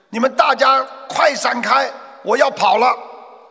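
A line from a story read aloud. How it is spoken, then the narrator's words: Loud bellow. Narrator (Chinese): 这家伙冲着人群大吼一声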